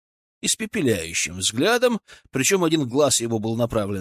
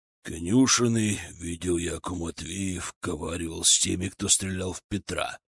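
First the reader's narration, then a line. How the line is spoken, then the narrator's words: Deep bass voice. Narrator (Russian): пробасил Григорий Григорьевич Рамадановский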